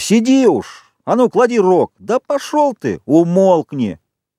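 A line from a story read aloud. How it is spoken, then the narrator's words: Shouting. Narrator (Russian): Ральф крикнул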